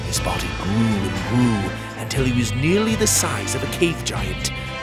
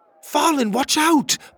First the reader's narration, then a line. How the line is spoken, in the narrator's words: Pocket shouted